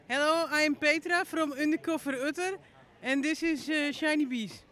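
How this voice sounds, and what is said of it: Dutch accent. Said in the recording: “with an amazing Dutch accent”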